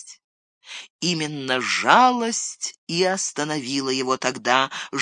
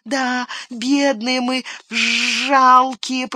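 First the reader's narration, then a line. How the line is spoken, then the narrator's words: Whining. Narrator (Russian): проскулил он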